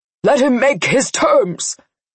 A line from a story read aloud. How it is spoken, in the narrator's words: Lenny yelled to the crowd